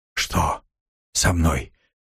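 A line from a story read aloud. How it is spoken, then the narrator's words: Hoarse rasp. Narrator (Russian): прохрипел он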